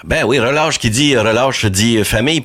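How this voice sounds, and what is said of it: Put-on accent. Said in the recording (French): “Pourquoi je prends un accent en parlant de même? ... C'est donc bien niaiseux, mon affaire.”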